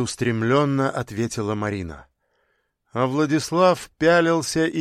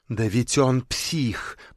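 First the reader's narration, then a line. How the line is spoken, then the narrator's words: Hissed. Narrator (Russian): прошипела она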